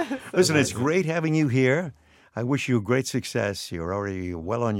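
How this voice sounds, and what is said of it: Usual voice. Nothing is said of it.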